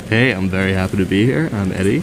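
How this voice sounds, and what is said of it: Smooth radio announcer voice. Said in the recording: “That's a good radio voice.”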